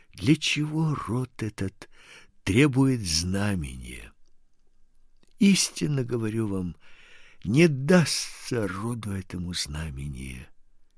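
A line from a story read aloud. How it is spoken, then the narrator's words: Speaking after deep sigh. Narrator (Russian): он, глубоко вздохнув, сказал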